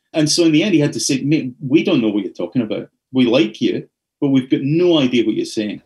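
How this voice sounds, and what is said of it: Tempered Scottish accent. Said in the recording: “my Scottish accent was so thick back in those days ... temper my accent down to this is as tempered as it gets ... a very broad Glasgow-Ayrshire-y kind of accent”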